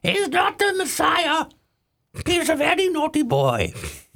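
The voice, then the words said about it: Good impersonation of a film character. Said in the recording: “Pretty good impersonation.”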